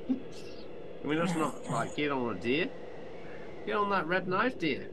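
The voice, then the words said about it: Put-on accent. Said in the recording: “I didn't understand your accent.”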